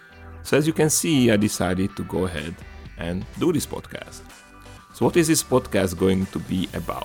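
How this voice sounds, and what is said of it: Very strong accent. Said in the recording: “my very strong accent”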